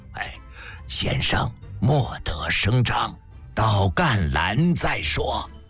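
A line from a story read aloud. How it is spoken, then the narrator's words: Low voice. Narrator (Chinese): 男子低声道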